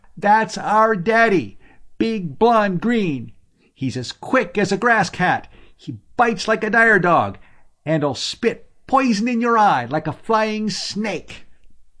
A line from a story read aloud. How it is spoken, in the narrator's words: The children were looking at him with wide, admiring eyes and yelling